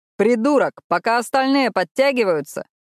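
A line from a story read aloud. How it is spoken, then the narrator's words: Loud instructing. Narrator (Russian): громко наставлял Калеб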